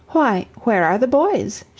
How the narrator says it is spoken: exclaimed

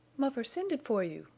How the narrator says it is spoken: cried Fay

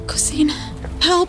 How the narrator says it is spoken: just whimper

